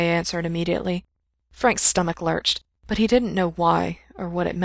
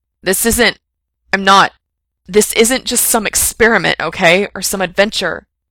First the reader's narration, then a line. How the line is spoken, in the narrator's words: Frank blurted